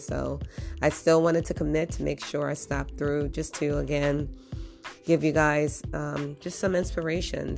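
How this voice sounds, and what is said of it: Slightly hoarse, scratchy voice. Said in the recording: “My voice might sound a little scroggly or hoarse”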